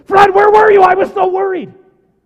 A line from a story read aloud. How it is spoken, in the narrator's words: if I scream at Fred and say